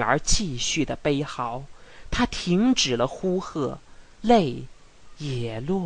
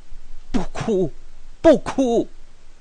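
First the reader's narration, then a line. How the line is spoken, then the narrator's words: Stern shout. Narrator (Chinese): 他厉声的喝喊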